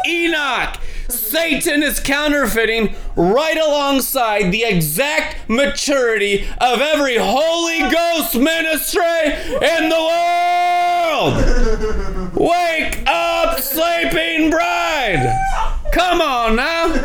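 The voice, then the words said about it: Shouting, excited preaching. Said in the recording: “I'm not shouting at you because we're losing. I'm shouting at you”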